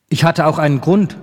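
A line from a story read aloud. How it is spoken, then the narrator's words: Plain. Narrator (German): sagte er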